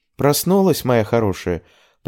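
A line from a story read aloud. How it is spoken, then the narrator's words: Pleasant melodic voice. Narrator (Russian): произнесла она приятным мелодичным голосом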